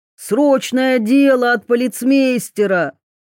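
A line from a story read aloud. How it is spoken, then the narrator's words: Shouted. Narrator (Russian): Гоглидзе крикнул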